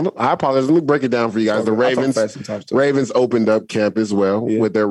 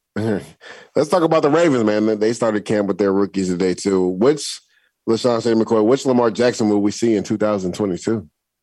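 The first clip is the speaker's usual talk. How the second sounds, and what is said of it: Speaking very fast. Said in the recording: “You said it so fast. ... He did say it fast.”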